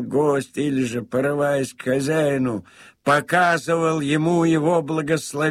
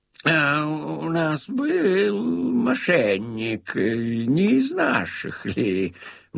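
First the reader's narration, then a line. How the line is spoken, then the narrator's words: Grumbling. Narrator (Russian): он ворчал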